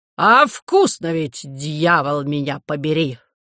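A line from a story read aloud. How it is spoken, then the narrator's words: Robber's exclamation. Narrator (Russian): воскликнул разбойник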